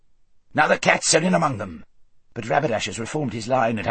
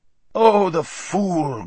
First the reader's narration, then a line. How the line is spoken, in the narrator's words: groaned the hermit